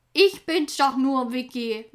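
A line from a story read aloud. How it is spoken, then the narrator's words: Soft laugh. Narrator (German): lachte Orobe leise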